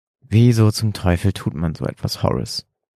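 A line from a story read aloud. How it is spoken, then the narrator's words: Trembling question. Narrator (German): fragte William mit zitternder Stimme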